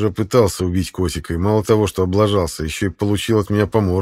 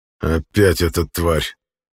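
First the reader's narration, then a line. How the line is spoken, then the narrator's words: Hiss. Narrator (Russian): прошипел Кайтерит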